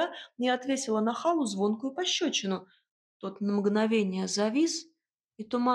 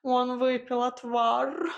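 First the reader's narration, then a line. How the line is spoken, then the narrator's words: Desperate whine near the ear. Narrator (Russian): в отчаянии проскулил кот у меня над ухом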